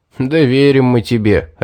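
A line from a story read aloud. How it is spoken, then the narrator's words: Laughing. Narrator (Russian): рассмеялся Стоун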